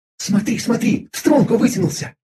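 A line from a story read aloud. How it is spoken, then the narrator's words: Quick whisper. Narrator (Russian): быстро прошептала наблюдательная Виза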